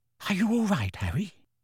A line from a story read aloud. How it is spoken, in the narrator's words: Hermione whispered, looking concerned